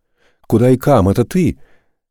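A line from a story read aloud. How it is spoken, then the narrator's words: Joyful young man. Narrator (Russian): радостно подпрыгнул юноша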